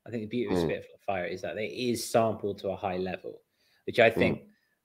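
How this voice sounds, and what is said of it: Middle class British accent. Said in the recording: “with a very middle class British accent”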